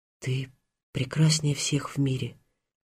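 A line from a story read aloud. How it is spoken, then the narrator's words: Girl's whisper. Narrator (Russian): прошептала девушка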